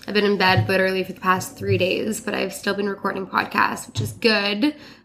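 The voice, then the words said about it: Congested, stuffed-up sick voice. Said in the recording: “I'm still sick, so I'm really sorry about my voice. I'm, like, so stuffed up.”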